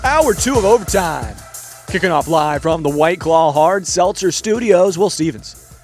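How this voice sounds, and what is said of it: Announcer-style radio voice. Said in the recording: “I don't know why I did a radio voice.”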